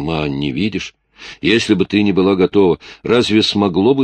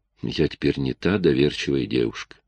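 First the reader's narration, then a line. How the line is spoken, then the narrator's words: Quiet. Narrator (Russian): тихо сказала Клэр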